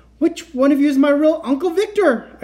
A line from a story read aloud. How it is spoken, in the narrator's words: choked out